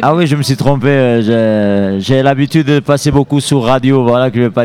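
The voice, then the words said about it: Southern French Lozère regional accent. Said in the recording (French): “ce charmant accent qu'on entend là ... c'est un accent de la Lozère ... Lozère Sud”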